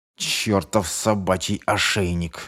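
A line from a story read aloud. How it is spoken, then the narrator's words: Growled. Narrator (Russian): зарычал Шефер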